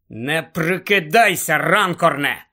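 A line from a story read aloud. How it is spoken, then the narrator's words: Furious hiss. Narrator (Ukrainian): люто прошипів містер Уізлі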